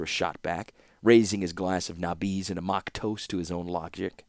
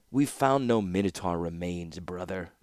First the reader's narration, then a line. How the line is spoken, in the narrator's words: said Urza coolly